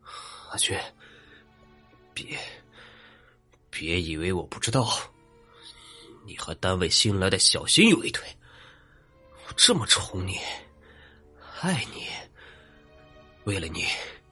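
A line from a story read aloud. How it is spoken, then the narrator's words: Drunken, furious yelling. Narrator (Chinese): 那男的醉醺醺的，喘着粗气，扯着嗓门破口大骂起来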